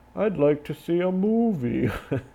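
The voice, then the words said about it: Imitates another person's voice. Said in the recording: “can you do a Christopher Walken? ... That sounds just like old CW.”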